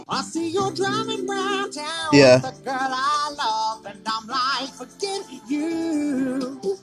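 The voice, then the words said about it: Imitates another person's singing voice. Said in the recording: “really good Bruno Mars impression”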